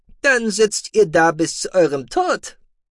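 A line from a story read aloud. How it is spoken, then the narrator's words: Cheerful. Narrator (German): sagte der Akonide fröhlich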